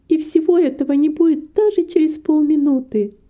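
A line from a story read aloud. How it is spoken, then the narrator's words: Sigh. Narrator (Russian): вздохнула Рита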